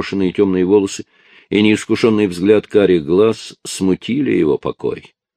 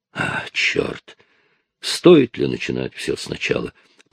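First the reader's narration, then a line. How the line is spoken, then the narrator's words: Muttered. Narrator (Russian): пробормотал он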